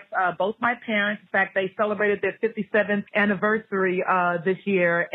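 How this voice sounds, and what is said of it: New York accent. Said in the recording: “I'm actually a native New Yorker. And so when I say New York, then you can actually hear it in my voice”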